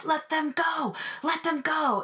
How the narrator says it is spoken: the onlooking gay folks from the gay bars in the village were yelling to the cops

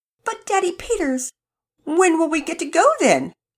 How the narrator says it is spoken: Penelope pleaded

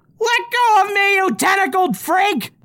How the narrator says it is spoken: Spritz shouts in desperation

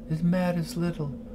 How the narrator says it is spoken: she said softly

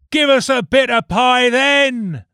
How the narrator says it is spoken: they screamed

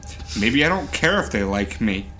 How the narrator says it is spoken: I muttered

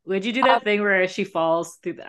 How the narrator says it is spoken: I laughed out loud

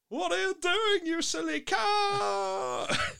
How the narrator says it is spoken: Hamilton shouted

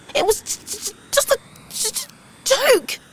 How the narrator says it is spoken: she spluttered

